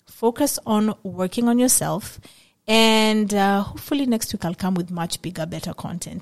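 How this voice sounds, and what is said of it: Emotional, low-spirited tone of voice. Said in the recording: “Today I'm just in my feelings, as you guys can see. I am sure you can tell from my tone of voice”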